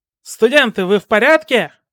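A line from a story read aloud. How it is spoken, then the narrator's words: Shout from doorway. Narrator (Russian): Из входной двери крикнул Сущий Миг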